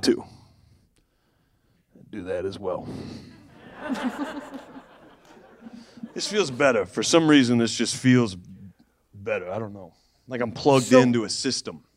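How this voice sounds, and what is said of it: Brooklyn accent. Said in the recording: “Why do you have a Brooklyn accent?”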